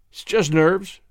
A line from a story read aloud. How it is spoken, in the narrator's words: he commented dryly